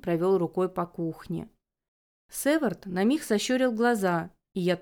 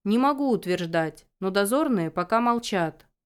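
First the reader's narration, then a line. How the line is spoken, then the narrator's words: Plain. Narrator (Russian): ответил Северт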